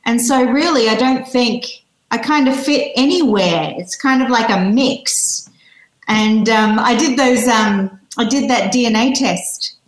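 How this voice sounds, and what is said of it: Australian accent. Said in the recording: “I think it's still very Australian. I think I came to the UK a little bit too late in my life to actually get my my accent changed.”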